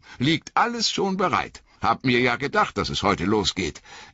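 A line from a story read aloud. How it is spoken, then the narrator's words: Called out. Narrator (German): rief Sam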